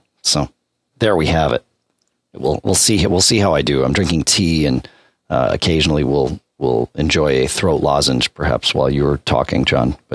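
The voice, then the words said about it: Raw, scratchy, low-pitched voice. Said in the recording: “I assume it's hay fever. I don't know, some kind of allergy thing going on. But as you've probably already heard, my voice is raw today. I'm trying to keep it in a lower register because at least then it doesn't get all scratchy”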